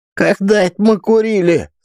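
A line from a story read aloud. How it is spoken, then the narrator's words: Indignant squeal. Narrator (Russian): с возмущением в голосе запищал Руслан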